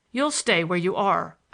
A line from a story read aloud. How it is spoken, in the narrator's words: I said sharply